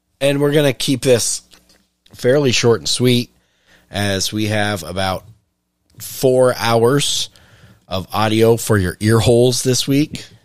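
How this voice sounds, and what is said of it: Deep, raspy, sick-sounding voice. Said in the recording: “I'm getting over a cold, and God, my voice sounds horrendous in my own ears, so I'm assuming it's worse for everyone else. ... Unless you're into the deep, raspy. ... Sickness.”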